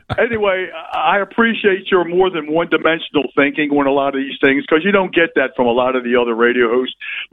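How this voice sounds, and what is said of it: Baltimore accent. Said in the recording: “I hope you appreciate my accent. I'm actually from Baltimore, Maryland”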